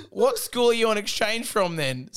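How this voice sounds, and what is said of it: Put-on Australian accent. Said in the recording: “I did an Australian accent”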